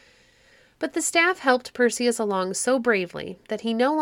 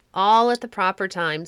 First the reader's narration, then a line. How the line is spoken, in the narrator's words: said his companion